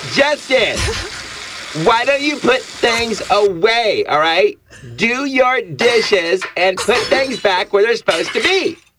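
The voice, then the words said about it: Yelling angrily. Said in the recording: “Stop yelling so much.”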